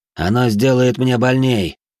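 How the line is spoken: Deep breath, then yelling. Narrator (Russian): Набрав воздуха, заорал

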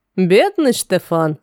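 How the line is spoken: Laughing. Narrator (Russian): рассмеялся Рафаэль

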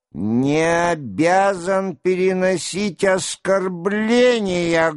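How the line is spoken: Loud, resonant. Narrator (Russian): громко, звучно договорил Долохов

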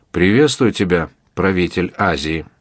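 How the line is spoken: Calmer. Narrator (Russian): Вольноотпущенник уже более спокойно добавил

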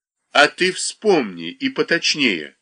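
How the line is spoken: Stern. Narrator (Russian): строго сказал Коньков

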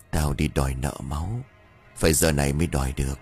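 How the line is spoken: Sudden muttering woman. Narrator (Vietnamese): Bất tình lình người đàn bà lẩm bẩm

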